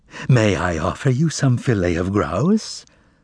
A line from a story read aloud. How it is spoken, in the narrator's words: purred Archibald Archibaldovich musically